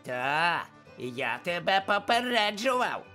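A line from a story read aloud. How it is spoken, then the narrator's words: Child's nasty yelling. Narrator (Ukrainian): зарепетував малий огидним голосом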